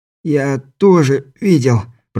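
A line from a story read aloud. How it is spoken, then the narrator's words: Groaning. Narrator (Russian): простонал Каспер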